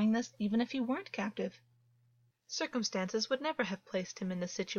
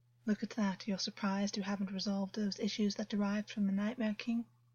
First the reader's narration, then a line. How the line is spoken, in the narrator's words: Augus sighed